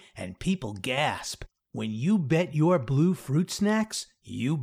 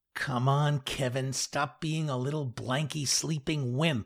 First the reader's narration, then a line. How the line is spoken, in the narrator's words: I mutter to myself